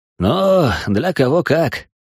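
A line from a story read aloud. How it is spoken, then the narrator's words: Sighing. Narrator (Russian): вздохнул Алик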